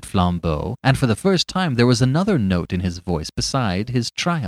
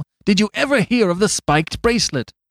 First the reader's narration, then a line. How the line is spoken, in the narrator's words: cried Flambeau